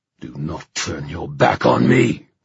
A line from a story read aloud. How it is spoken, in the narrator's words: the king roared